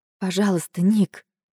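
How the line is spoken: Quiet. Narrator (Russian): тихо говорю я

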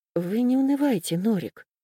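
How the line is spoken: Quiet, even female voice. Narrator (Russian): сказала она тихим, ровным голосом

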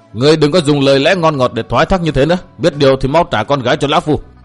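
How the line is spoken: Loud angry shout. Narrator (Vietnamese): Vân Đạt quát lớn

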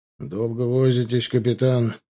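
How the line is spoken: Displeased grumble. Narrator (Russian): проворчал недовольно Чубаров

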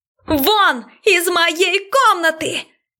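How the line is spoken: Screaming with full force. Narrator (Russian): Закричала изо всех сил

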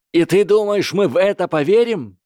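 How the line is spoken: Yelled retort. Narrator (Russian): заорал в ответ Кевин Энтвистл

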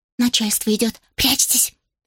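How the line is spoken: Whispered command. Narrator (Russian): Шепотом велела она, затем обернулась к пекарям и прошептала

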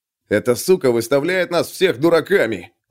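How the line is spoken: Growling. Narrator (Russian): прорычал Сарлби

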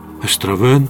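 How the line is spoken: Amazed whisper. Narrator (Russian): изумленно прошептал он

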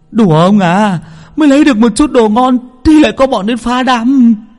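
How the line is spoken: Shrieking. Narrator (Vietnamese): Bảy Ếch rú lên

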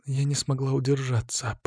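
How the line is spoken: Whispered. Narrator (Russian): прошептала Алина

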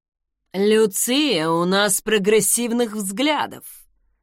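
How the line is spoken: Awkward chuckle. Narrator (Russian): хохотнул Алистер Торстен, стараясь сгладить неловкость

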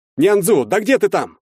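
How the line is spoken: Shouting. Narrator (Russian): закричал я

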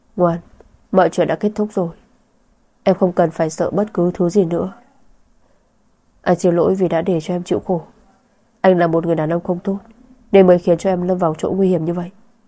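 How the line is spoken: Soft soothing. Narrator (Vietnamese): Anh nhỏ giọng trấn an

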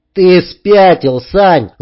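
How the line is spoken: Shouting. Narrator (Russian): закричал уже и Вадим

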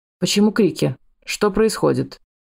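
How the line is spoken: Deep bass male voice. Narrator (Russian): Басистым голосом сказал мужчина

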